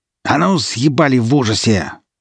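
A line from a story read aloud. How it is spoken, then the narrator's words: Young woman growling. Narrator (Russian): зарычала девушка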